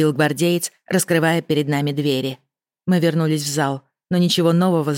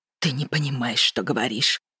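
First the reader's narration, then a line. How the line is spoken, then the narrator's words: Crazed whisper. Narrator (Russian): словно безумец прошептал Лаэрт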